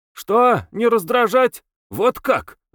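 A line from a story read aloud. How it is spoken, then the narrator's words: Shouted. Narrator (Russian): закричал Алябьев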